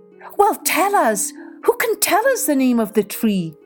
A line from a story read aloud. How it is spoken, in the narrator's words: cried the animals